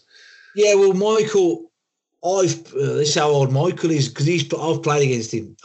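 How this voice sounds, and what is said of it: Black Country English accent. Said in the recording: “I'm black country through and through. You probably know my accent”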